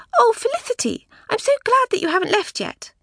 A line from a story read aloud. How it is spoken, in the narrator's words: she cried in her lisping little girl voice